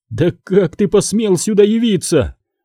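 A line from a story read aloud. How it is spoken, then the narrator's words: Trembling voice. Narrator (Russian): спросил дрожащим голосом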